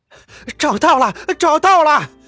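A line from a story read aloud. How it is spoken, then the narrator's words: Sudden shout. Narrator (Chinese): 有人突然之间大喊起来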